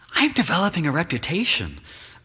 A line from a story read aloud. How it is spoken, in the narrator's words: whispers an affable man